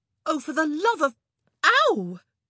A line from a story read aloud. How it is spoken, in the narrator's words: Kate let out a howl as the bee sank its stinger into her flesh